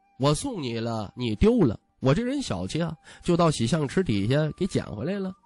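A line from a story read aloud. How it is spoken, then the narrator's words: Grinning playfully. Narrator (Chinese): 徐凤年一脸嬉笑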